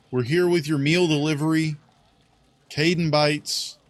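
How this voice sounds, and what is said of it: Sarcastic delivery. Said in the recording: “I'm just being sarcastic.”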